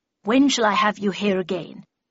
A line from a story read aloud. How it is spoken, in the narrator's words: said Miss Havisham, in a low growl